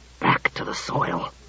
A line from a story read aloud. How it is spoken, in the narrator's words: said Klusar in a stifled voice